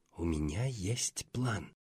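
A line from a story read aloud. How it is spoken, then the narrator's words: Whispered. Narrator (Russian): шепнула Даяна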